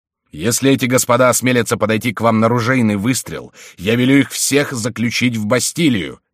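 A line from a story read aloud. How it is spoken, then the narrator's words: Shouting. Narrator (Russian): закричал Генрих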